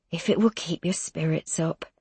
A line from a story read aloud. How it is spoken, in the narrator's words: she murmurs, obviously just trying to please him